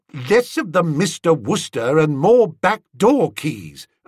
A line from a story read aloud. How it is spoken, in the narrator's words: said curtly